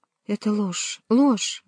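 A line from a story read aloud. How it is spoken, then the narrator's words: Exclaimed. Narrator (Russian): воскликнула она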